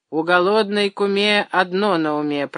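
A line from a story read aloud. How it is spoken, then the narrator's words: Grumbling. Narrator (Russian): проворчал Абросимов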